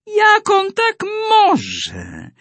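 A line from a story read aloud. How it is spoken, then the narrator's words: Hissed. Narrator (Polish): syknęła Daga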